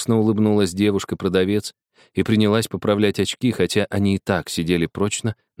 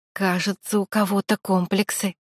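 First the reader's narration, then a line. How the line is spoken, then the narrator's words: Meaningful whisper. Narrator (Russian): многозначительно шепнула на ухо Артуру Аня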